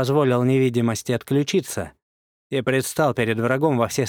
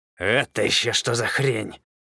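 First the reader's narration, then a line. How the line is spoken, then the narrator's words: Distinct mutter in silence. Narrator (Russian): Талитхянин отчетливо пробормотал в установившейся над равниной тишине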